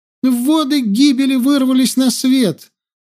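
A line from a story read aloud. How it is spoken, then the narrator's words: Girl screaming unaware. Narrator (Russian): завопила девушка, сама себя не слыша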